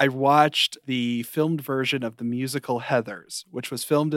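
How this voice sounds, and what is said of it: Usual voice. Nothing is said of it.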